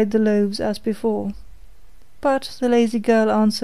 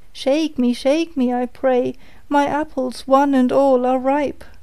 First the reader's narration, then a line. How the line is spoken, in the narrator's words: it cried